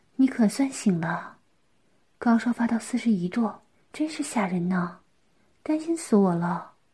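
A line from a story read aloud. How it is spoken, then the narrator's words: Gentle laugh. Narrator (Chinese): 嫣嫣看见小景醒了，温柔地笑道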